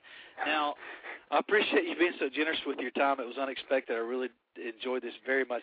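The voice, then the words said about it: Southern American accent. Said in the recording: “I know I got the southern accent.”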